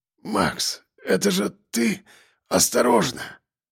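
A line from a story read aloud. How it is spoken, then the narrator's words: Hoarse wheeze. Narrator (Russian): прохрипел он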